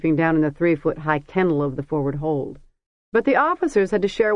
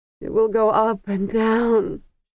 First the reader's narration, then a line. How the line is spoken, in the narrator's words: she moaned in Kargish